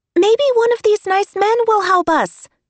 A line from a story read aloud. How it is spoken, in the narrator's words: hollered Liza